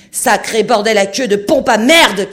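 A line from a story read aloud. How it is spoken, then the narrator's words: Furious male shout. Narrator (French): cria-t-il hors de lui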